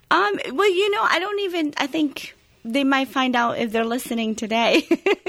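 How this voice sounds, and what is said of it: Foreign accent in English. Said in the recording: “you weren't born here ... they can probably catch on the accent”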